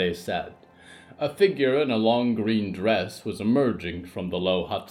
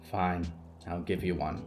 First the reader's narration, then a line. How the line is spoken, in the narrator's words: Friday muttered